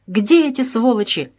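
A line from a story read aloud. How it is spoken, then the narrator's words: Joyful exclamation. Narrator (Russian): радостно воскликнул Вашко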